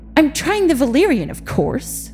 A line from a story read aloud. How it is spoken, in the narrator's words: snapped